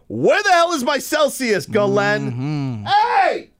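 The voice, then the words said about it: Testy yelling. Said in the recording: “A little testy today. ... You're yelling in that direction.”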